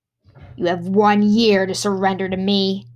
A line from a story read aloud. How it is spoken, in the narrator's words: growled Ravana